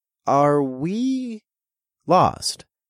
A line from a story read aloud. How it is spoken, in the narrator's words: I asked in a hesitant voice